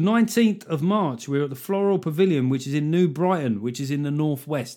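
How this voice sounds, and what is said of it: Usual voice. Nothing is said of it.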